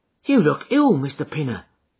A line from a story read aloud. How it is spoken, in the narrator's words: he exclaimed